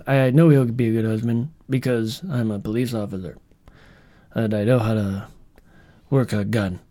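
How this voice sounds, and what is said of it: Poor impression of Charlie from Twilight. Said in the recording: “That was a horrible impression.”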